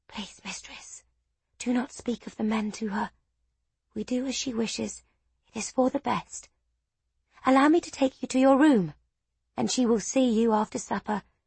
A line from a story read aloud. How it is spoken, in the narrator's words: She whispered